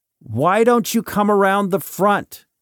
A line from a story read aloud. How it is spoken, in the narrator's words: He shouts through the door